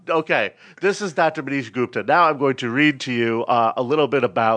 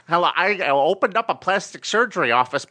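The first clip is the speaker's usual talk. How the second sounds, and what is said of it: Exaggerated nerdy white guy voice. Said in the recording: “Dave Chappelle doing a white guy voice”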